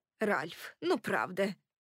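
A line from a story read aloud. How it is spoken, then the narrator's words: Mother grumbling. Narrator (Russian): проворчала моя мать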